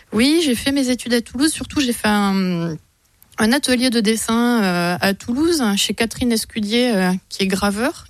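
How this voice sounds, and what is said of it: Southern French Toulouse accent. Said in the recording (French): “je suis toulousaine. ... Ça va s'entendre de temps en temps, je pense. ... Avec l'accent. ... L'accent sur le jaune, rose.”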